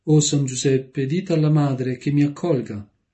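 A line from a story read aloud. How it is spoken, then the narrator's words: Young girl's exclamation. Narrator (Italian): la giovane ragazza uscì in questa esclamazione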